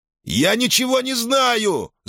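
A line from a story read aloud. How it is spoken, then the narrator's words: Shouting. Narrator (Russian): закричал Ферк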